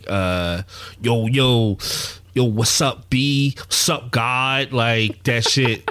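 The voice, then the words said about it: Exaggerated fake New York accent. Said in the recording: “that New York That's fake funny. shit.”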